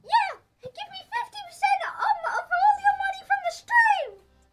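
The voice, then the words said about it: Squeaky Mickey Mouse character voice. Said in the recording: “I really don't like your squeaky voice, Mickey Mouse. It's disturbing.”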